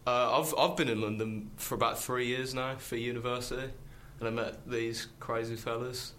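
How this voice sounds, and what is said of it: Birmingham accent. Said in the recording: “I'm from Birmingham, as you can probably tell from the accent.”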